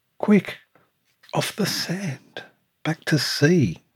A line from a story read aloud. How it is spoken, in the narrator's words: cried the snail